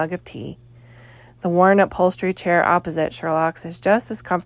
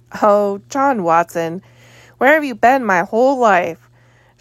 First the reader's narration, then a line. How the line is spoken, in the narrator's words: Sherlock says and continues laughing